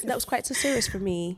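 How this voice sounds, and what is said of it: Fake British accent. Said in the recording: “my fake British accent”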